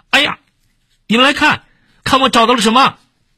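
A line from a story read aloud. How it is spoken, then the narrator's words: Shouting excitedly. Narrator (Chinese): 他又大叫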